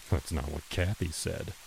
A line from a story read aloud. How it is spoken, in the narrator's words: he muttered